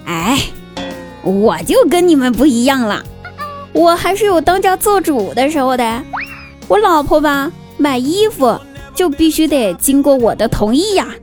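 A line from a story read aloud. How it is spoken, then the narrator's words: Smiling. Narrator (Chinese): 只有张大鸟笑了笑，说道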